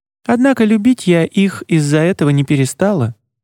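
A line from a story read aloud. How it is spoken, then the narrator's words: Cooing. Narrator (Russian): проворковала Марица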